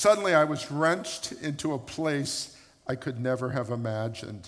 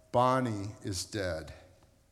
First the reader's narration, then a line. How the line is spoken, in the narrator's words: she said